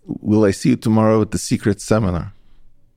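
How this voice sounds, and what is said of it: Poor imitation of a woman's accent. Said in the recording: “I'm probably going to do a bad version of her accent”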